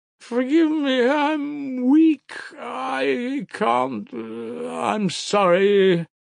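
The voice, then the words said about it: Exhausted, weak voice. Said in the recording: “in an exhausted voice”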